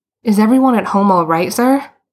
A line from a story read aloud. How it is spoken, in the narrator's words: Boots blurted out